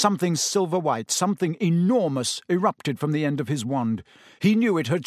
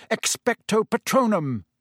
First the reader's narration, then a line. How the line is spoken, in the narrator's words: roared